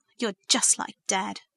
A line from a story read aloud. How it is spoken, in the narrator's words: she snapped